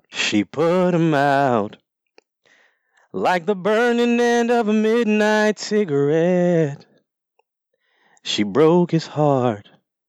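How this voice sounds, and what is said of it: Singing in a put-on country accent. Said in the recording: “You've got your country voice on ... I'm going to do it in the country accent.”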